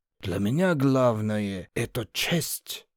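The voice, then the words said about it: Put-on Georgian accent. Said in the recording (Russian): “с грузинским акцентом”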